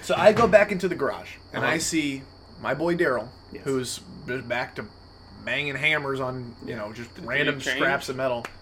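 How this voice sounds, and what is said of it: Altered character voice. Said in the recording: “He sounds a little different, but that's what ooze sounds like.”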